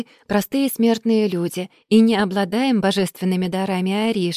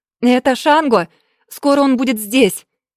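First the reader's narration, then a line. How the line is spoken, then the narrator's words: Desperate shout. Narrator (Russian): В отчаянии прокричала Ойя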